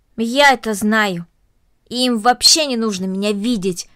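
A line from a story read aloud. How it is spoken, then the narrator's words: Angry. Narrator (Russian): сердито произнесла Корнелли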